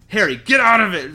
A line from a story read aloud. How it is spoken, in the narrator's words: snarled Sirius